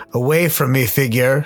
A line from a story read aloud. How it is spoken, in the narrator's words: shouted the vagrant